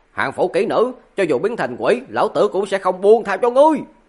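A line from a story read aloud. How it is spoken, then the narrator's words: Trembling, loud shout. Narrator (Vietnamese): cả người Hà Lão Lục hung hăng run rẩy lên, theo bản năng lớn tiếng quát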